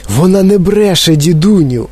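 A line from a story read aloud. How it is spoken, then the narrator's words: Exclamation. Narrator (Ukrainian): вигукнув Чарлі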